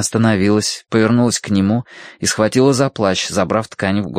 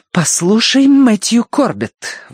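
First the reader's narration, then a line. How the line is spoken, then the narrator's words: Angry girl exclaiming. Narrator (Russian): воскликнула девушка, раскаляясь от гнева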